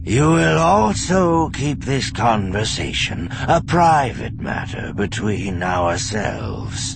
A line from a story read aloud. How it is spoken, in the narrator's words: Sabaoth said lazily